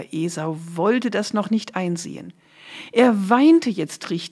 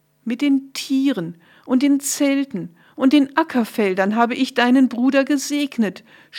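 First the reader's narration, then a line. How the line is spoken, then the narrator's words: Groaning. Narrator (German): stöhnte Isaak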